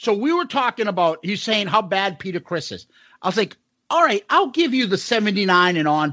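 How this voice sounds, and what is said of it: Usual voice. Nothing is said of it.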